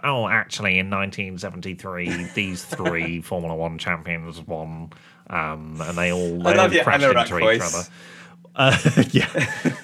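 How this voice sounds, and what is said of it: Pedantic know-it-all nerd voice. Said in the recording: “my F1 statistical nerd voice ... It's like a male Karen”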